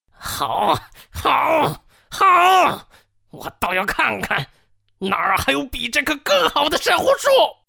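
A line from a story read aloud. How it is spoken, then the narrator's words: Furious trembling shout. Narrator (Chinese): 王凯愤怒的浑身发抖，大喊道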